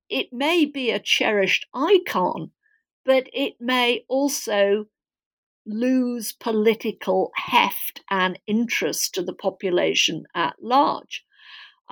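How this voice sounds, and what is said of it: Non-American accent. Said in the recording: “as my accent suggests, I'm, I'm not American by birth”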